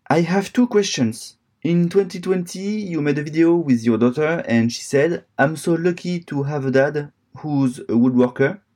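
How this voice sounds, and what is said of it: French accent. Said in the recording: “He's from France ... I have a weird accent”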